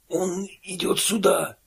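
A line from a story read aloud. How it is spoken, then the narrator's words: Hoarse whisper. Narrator (Russian): хрипло прошептал Бигл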